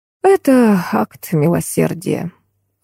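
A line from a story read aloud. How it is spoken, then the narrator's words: Sighing. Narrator (Russian): вздохнул композитор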